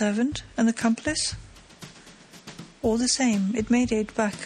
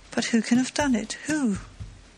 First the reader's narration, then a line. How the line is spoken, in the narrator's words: moaned Isidore